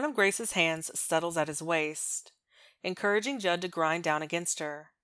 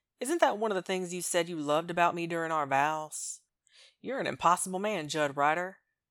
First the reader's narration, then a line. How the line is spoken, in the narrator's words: he recites, his tone teasing